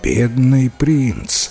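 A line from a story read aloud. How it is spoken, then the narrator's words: Sighing king. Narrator (Russian): вздохнул король, услышав рассказ лорда Кенвиса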